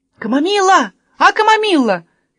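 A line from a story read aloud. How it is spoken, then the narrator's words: Shout. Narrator (Russian): крикнул Томми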